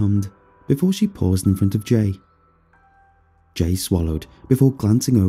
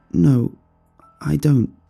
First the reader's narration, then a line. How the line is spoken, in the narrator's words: he mumbled